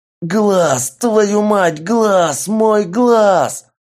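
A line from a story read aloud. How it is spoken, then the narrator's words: Frantic screaming. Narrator (Russian): Истошно орал бабник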